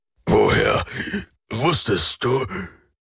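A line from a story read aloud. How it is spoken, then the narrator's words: Croaked. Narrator (German): krächzte Alrik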